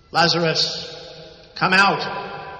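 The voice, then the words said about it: Loud calling voice. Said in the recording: “called in a loud voice”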